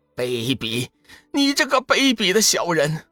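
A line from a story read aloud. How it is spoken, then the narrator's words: Trembling, furious. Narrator (Chinese): 仙使全身哆嗦，无比怨恨地怒道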